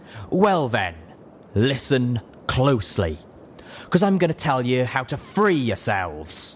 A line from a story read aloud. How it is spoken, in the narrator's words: Stern said, her voice gruff with disgust and conviction